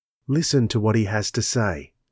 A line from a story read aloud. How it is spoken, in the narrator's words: said softly